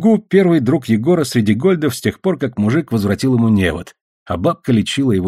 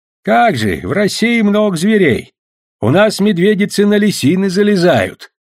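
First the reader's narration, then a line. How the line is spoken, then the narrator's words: Loud, old man to deaf. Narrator (Russian): громко, как с глухим, говорил дед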